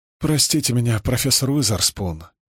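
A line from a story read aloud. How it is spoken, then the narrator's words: Apologetic tone, smiling. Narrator (Russian): говорить виноватым тоном, ослепительно улыбаясь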